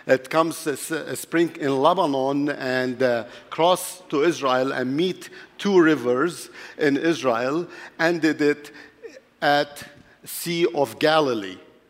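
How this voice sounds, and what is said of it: Mixed Arabic, French and Hebrew accent. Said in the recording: “from my accent, of course, you know that I'm not from here ... My accent is a mixture between Arabic, French, and Hebrew”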